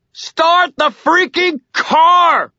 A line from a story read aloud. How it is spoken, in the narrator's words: I screamed